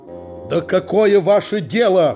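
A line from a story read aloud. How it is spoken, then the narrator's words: Nearly shouting. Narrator (Russian): почти закричал снабженец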